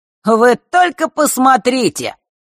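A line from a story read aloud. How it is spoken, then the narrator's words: Loud. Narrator (Russian): громко произнес Марк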